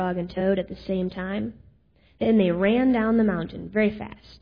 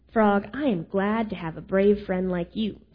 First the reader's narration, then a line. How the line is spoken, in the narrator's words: said Toad